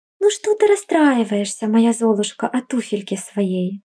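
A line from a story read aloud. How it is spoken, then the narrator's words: Tender. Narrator (Russian): Сказал он ласково жене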